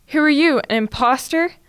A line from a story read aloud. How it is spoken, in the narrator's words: Ebony growled at her double